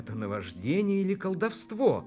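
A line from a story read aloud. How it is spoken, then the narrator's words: Prisoner's exclamation. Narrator (Russian): воскликнул пленник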